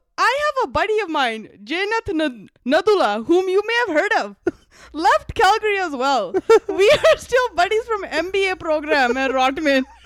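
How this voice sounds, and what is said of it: Reads message in a different accent. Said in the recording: “Why did you just change to a different accent? ... I'm asking why your accent changed.”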